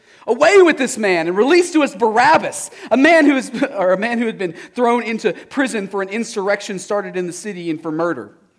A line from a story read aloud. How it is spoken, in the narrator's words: they all cried out together